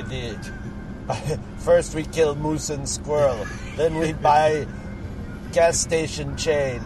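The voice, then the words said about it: Put-on cartoon Russian villain accent. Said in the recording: “I'm going from Boris Badenoff to Cheech... I'll stop accent.”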